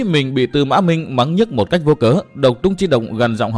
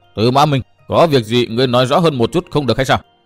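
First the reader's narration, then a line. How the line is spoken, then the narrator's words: Angry. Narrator (Vietnamese): Độc Trung Chi Độc tức giận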